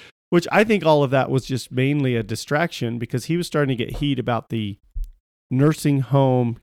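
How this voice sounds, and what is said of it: Usual voice. Nothing is said of it.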